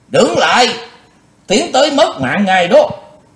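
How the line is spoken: Loud ringing shout. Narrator (Vietnamese): có tiếng quát vàng

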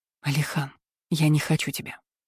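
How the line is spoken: Barely audible whisper. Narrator (Russian): прошептала еле слышно

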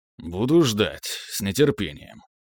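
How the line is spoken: Grumbling. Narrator (Russian): буркнул

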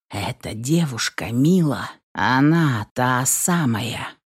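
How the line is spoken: Quiet. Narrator (Russian): тихо проговорил Влад

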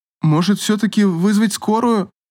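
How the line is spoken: Trembling voice. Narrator (Russian): дрожащим голосом спросил администратор у Павла

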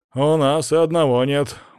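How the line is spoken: Grumbled. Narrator (Russian): буркнул кулак

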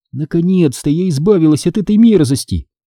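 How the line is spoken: Joyful thought. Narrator (Russian): радостно подумала я

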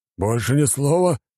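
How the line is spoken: Growl. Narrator (Russian): рыкнул архимаг

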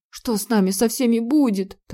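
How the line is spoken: Hurried whisper. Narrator (Russian): торопливо зашептала она

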